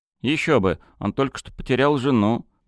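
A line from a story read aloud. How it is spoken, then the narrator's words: Grumbled. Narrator (Russian): проворчал Жора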